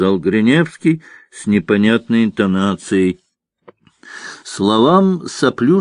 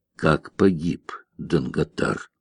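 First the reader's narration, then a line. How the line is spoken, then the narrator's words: Muffled question after pause. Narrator (Russian): после паузы глухо спросил Гриневский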